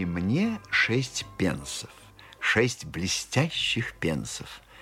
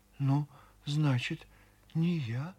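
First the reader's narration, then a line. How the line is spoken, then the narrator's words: Quiet, shaken old woman. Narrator (Russian): Старушка, сама не своя, тихо сказала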